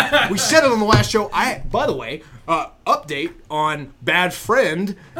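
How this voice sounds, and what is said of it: Usual voice. Nothing is said of it.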